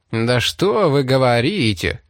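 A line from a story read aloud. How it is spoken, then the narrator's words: Mocking drawl. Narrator (Russian): Растягивая гласные, насмешливо произнес Вилкокс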